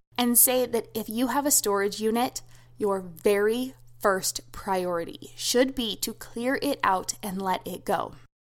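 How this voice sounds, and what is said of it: Serious, stern tone. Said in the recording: “put on my serious voice”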